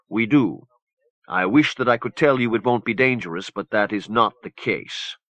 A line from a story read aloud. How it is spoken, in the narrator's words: Warbaby said gravely